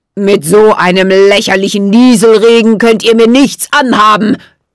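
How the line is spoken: Hissed. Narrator (German): zischte Jack Frost

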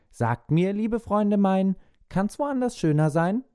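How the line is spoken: Cheerful call. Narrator (German): fröhlich ruft

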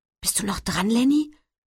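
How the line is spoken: Embarrassed whisper. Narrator (German): flüstert und wird ganz rot

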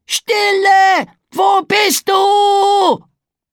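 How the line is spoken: Screaming. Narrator (German): schrie Pegeldi

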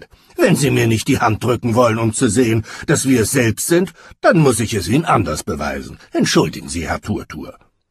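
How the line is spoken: Blustering laughter. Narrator (German): polterte Lukas lachend

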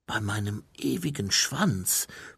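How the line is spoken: Reverent whisper. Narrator (German): flüsterte Mumin andächtig

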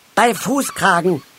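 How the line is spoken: Call out. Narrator (German): rief Halbschuh

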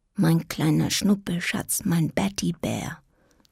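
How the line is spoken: Soft, to herself. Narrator (German): sagte sie leise zu sich selbst

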